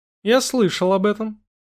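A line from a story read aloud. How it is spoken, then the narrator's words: Calm reply. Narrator (Russian): спокойно ответил Холмс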